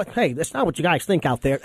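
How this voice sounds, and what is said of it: Nerdy imitation of another person's voice. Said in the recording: “That was a good impression. ... You make him sound like Poindexter with a pocket protector.”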